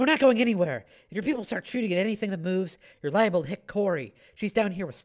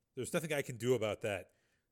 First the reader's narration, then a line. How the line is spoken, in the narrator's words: Volker said grimly